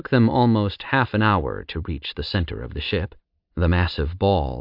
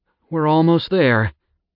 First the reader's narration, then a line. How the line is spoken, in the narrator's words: Jowl answered with a sigh